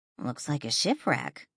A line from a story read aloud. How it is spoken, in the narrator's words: Danielle muttered